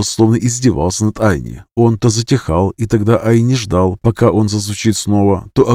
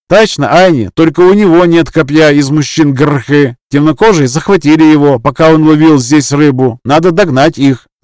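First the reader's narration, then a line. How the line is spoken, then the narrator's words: Shouting. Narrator (Russian): закричал сын Иквы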